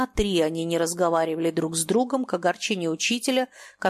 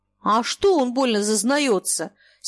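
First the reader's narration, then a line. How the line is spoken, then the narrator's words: Angry. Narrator (Russian): сердито ответил Фома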